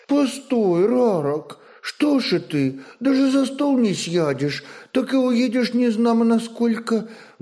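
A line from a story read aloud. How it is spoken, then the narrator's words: Sobbing exclamation. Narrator (Russian): воскликнула всхлипывающая Ружена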